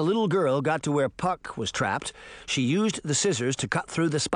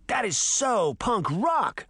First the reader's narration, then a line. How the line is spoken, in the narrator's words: Sabrina shouted